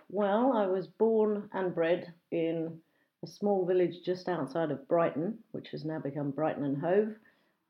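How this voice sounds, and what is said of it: BBC English home counties accent. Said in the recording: “I have what we call a BBC English accent, apparently, or a home counties accent. Apparently one of the easiest to understand for people learning English.”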